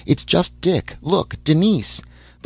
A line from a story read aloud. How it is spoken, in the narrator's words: cried